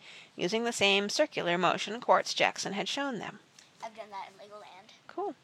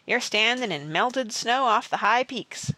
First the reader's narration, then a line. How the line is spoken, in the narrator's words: chuckled